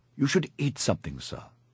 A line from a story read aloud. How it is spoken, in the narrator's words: I said